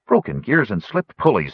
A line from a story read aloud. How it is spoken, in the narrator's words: exclaimed